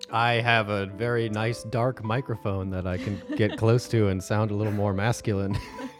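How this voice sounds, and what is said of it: Smooth radio-style voice. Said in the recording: “You do have a really good radio voice.”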